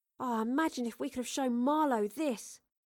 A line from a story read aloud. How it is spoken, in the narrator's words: Astrid sighed